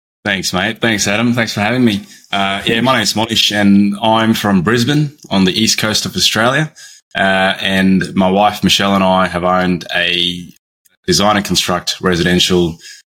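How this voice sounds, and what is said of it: Non-American accent. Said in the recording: “You'll hear from his accent that he is not from America”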